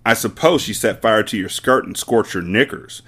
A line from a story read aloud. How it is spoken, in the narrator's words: Miss Trunchbull snorted